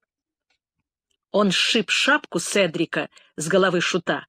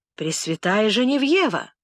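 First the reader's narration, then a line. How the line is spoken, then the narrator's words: Exclaiming. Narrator (Russian): воскликнул Фрон-де-Бёв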